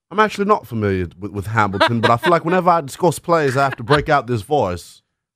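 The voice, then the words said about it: Put-on accent, pretty good. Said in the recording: “I guess that accent makes sense. It's a pretty good accent.”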